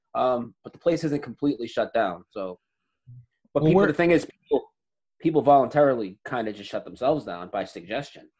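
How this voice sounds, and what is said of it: Boston Massachusetts accent. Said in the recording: “Lowell, so you're in Massachusetts. Boston. ... That would explain the accent and the anger.”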